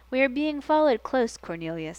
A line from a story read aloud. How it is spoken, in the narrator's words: he said calmly